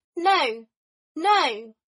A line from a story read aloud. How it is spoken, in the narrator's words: at the top of his lungs